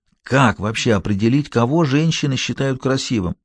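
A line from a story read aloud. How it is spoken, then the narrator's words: Whisper. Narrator (Russian): зашептал Фаулер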